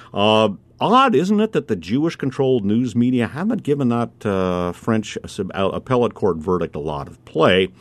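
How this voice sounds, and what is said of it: Sarcastic tone. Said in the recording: “I'm being sarcastic.”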